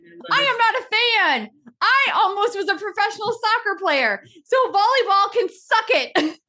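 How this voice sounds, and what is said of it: Yelling. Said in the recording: “My face is like bright red now. I'm so sorry for yelling.”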